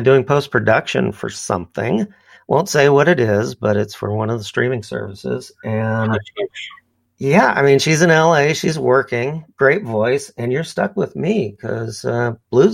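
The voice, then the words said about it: Strained, fading voice. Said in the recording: “my voice is going”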